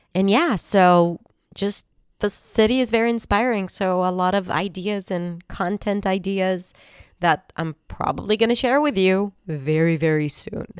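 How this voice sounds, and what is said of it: Congested, stuffy-nosed voice. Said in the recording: “I sound a little congested because I am ... that's the result of the weather change”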